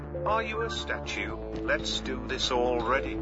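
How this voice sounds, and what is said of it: British accent. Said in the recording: “Oh, it's a British accent.”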